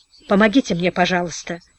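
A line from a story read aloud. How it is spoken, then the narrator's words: Mumbling through bloody mouth. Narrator (Russian): забормотал он окровавленным ртом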